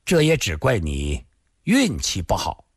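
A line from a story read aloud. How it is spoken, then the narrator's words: Sighing, flat tone. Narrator (Chinese): 他突然又叹了口气，淡淡地说道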